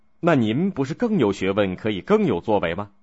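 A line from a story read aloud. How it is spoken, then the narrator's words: Plain. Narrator (Chinese): 孔子说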